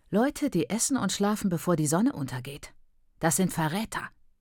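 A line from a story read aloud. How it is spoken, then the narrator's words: Quiet snort. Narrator (German): sagte Mai und schnaubte leise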